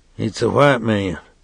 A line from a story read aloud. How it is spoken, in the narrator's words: he said quietly